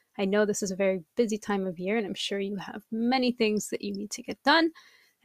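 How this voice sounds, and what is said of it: Voice still affected, getting over illness. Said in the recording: “apologize for my voice because I'm getting over a pretty nasty cold”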